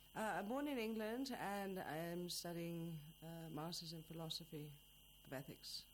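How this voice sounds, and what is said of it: Noticeable non-native accent. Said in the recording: “your accent makes it quite obvious”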